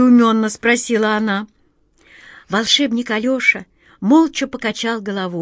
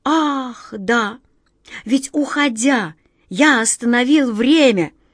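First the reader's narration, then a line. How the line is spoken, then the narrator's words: Wizard exclaiming. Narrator (Russian): воскликнул волшебник Алеша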